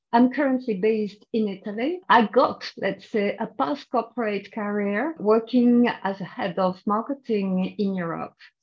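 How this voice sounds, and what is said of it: French accent. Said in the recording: “I'm French, as you can hear from my accent.”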